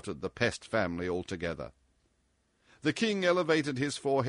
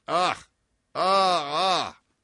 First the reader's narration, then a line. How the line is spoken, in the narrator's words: chuckled, without heeding the general excitation